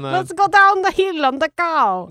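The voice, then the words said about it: Awful stereotypical Russian accent. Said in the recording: “Stereotypical accent there ... Yeah, awful. Really bad.”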